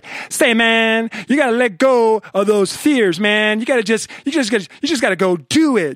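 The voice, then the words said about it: Laid-back super cool guru voice. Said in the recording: “do this voice, know that I'm doing like super cool guru guy on stage ... there is no guru that talks like that ... that's my super cool”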